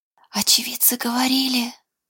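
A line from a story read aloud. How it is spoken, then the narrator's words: Whispered. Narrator (Russian): Шепотом произнес Даниэль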